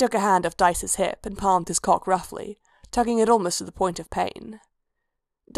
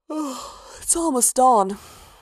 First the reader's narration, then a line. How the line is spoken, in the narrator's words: Rhea said, yawning